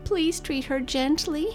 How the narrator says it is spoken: pleaded

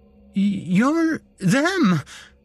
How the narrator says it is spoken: I stammered, my mouth too dry to properly speak

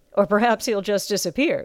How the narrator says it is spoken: said with a snort

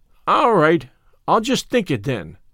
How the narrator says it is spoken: said Davy cheerfully

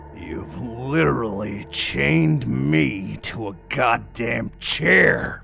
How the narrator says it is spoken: I roared

